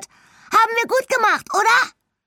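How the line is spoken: Excited little badger's call. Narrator (German): ruft der kleine Dachs begeistert

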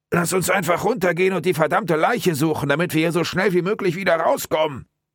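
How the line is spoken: Muffled shout. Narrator (German): Durch seinen Hemdsärmel gedämpft, rief Mike seinem Partner zu

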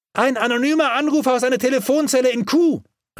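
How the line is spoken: Calling back. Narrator (German): rief Albert zurück

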